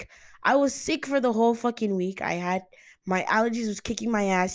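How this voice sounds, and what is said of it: Raspy, hoarse voice. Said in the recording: “You could still hear it. My voice is really raspy.”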